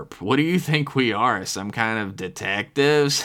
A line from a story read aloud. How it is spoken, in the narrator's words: Flinch laughed a little breathy CPAP machine deficient laugh to himself